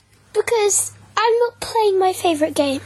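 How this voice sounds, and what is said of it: Silly put-on voice. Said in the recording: “Why are you doing a stupid voice?”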